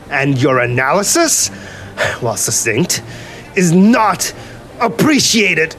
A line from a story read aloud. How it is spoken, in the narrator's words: he shouted over rolling peals of thunder